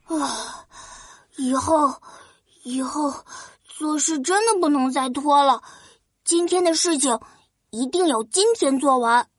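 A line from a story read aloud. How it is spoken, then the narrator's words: Exhausted, panting, to himself. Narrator (Chinese): 拖延王子累得满头大汗，他气喘吁吁的自言自语说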